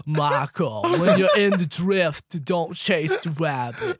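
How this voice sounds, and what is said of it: Imitates a botched American accent. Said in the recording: “Charlie Hunnam, for some reason, forgot how to do like an American accent in Pacific Rim. So oh, he just sounds like an idiot the whole time ... why is he talking like that?”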